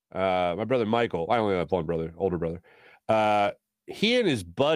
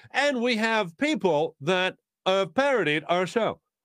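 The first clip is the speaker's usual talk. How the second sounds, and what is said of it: Imitates another person's voice. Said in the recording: “my Chris Hansen impression.”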